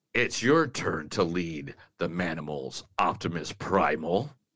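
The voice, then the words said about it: Optimus Prime robot character voice. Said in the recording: “doing the Optimus Prime voice”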